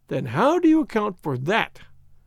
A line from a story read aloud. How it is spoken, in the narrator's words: cried Hopkins